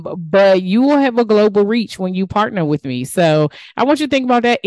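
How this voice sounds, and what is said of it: DMV regional American accent. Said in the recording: “my DMV accent today. It is just messing me up.”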